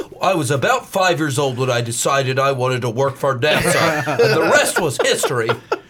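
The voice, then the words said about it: Made-up nerdy lower Midwest accent. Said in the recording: “I like the accent ... Where is that from? Like a ... lower ... Midwest ... it's a made up ... horrible ... nerd it. Accent”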